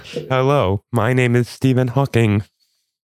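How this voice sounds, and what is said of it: Robotic speech-synthesizer voice impression. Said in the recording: “I've always done a surprisingly good impression of Stephen Hawking. ... I felt like there was even a slight glitch in your voice.”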